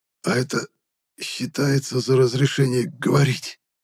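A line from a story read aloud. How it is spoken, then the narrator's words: Hoarse strained voice. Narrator (Russian): выдавил я из охрипшего от рычания горла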